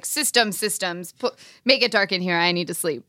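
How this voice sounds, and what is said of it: Imitates another person's voice. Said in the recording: “Do you have an impression of Max?”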